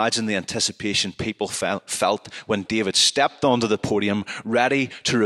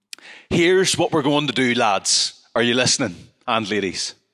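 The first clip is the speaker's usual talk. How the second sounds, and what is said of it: Put-on Ballymena Northern Irish accent. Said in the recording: “We'll do it in a Ballymena accent.”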